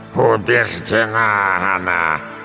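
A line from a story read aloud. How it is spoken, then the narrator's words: Growled, calming down. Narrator (Russian): прорычала бабушка, медленно успокаиваясь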